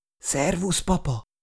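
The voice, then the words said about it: Breathless whisper. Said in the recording (Hungarian): “A loholástól kifulladt ... suttogva”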